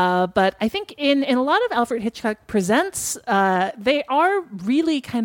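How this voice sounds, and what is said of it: Usual voice. Nothing is said of it.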